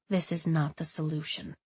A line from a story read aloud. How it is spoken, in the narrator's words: Dalin said quietly